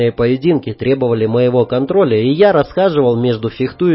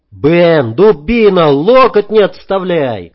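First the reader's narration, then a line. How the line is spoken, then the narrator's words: Shouting. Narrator (Russian): крикнул я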